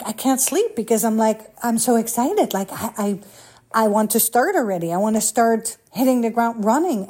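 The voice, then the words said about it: Excited, fiery, energetic voice. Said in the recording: “what you hear in my voice, the fire, I am like on fire”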